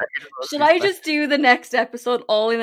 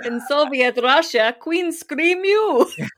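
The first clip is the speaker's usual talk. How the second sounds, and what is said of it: Poor mock Russian accent, vampire-like. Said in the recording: “a Russian accent ... I don't even think that is a Russian accent. It's very Count Chocula, isn't it?”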